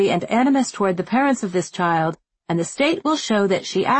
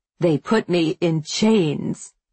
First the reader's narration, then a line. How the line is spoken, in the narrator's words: she says, her voice dark and fierce